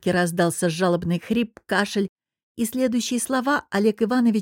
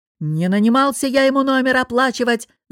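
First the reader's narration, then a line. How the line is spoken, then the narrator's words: Yelling, voice giving out. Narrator (Russian): заорал босс, но его голос решил, что с него хватит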